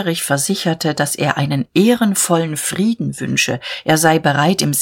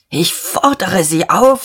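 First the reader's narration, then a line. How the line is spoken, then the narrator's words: Hoarse with excitement. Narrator (German): sagte Dieterich heiser vor Erregung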